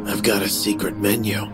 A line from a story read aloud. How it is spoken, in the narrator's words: he whispered